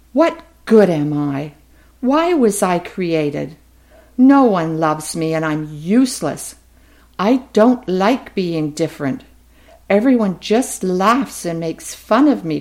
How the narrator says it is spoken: cried Elliot

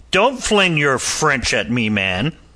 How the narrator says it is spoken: snapped Hobart

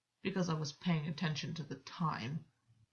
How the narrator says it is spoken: Gwyn muttered

